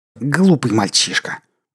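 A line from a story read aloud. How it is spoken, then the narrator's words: Annoyed hiss. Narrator (Russian): прошипел раздосадованный Лон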